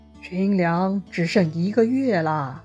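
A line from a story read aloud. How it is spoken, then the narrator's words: Whispering in ear. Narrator (Chinese): 他就凑到许攸耳边啊，低声说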